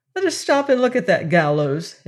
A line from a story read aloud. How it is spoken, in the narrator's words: exclaimed the shifty lad